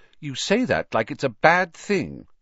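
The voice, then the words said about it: Slightly hurt voice. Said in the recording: “said Hermione in a slightly hurt voice”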